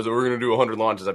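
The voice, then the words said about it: Elon Musk impression. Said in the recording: “That was a good Elon impression.”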